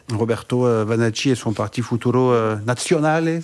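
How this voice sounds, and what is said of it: Italian accent on names. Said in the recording (French): “avec l'accent italien ... très bel accent”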